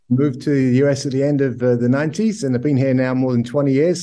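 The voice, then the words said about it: Mid-Atlantic British-American accent. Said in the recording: “you have an accent ... born and raised in the UK ... a bit of a mid-Atlantic twang, a little bit of British, a little bit of American”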